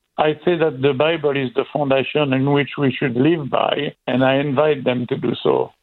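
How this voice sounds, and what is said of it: French accent. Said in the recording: “I'm just loving the French accent. ... It's so nice ... it's beautiful.”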